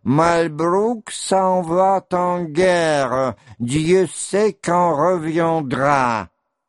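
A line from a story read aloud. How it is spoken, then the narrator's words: Off-key singing, old man. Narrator (Russian): старик запел фальшивым и старческим голосом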